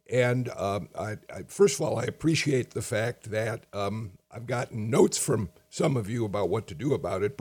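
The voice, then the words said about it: Hoarse voice. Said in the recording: “losing my voice. I've been hoarse.”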